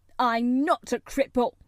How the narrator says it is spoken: cried up furiously

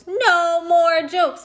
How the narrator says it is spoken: Miss Cuddy shouted

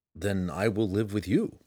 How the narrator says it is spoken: replied calmly

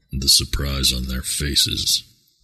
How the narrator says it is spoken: Tawis murmured to himself and smiled

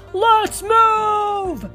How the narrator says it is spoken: Sarge shouted

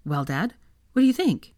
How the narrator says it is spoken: asked excitedly

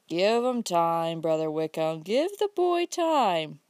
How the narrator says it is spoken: broke in Uncle Bobby, with a chuckle

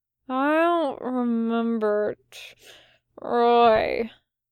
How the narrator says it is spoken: Crowley mumbled and hiccuped

